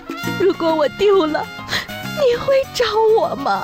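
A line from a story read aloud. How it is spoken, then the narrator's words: Tearful, crying question. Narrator (Chinese): 铁柱媳妇儿 泪流不止，哭着问铁柱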